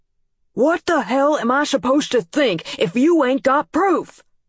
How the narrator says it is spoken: Dad was still shouting

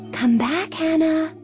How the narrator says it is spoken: her mother whispered

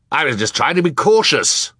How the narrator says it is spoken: Sir said gruffly, a word which here means in a tone that indicated he had no intention of being more polite

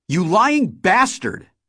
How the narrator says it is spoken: She shouted

